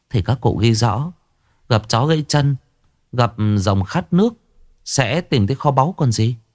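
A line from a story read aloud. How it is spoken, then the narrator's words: Smiling. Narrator (Vietnamese): bà Chánh đào mỉm cười nói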